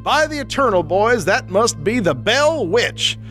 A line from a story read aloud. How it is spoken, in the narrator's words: he exclaimed